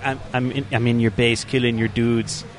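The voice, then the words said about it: Put-on Russian accent. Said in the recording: “in, like, the Russian accent”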